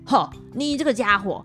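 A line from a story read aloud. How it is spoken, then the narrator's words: Furious. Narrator (Chinese): 那妖王心头大怒的说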